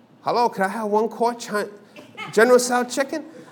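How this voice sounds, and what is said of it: Put-on Chinese accent. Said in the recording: “I take on a Chinese accent... why are you talking like that?”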